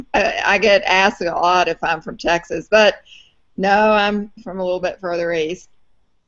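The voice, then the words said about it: Distinctive Southern US accent. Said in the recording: “I have a distinctive southern accent. That's from Atlanta ... I started sounding like that”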